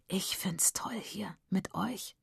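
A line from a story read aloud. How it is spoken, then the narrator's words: Whispering. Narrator (German): flüstert Mona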